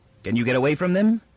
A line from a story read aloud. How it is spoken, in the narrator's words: asked Barr